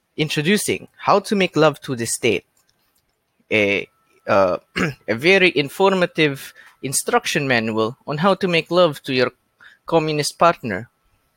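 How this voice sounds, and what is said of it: Exaggerated stereotypical Russian accent. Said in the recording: “cheesy, almost stereotypical Russian accent”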